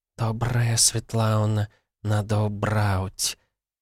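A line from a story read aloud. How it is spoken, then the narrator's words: Kitten softly purring. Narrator (Russian): кошечкой, которая тихо промурлыкала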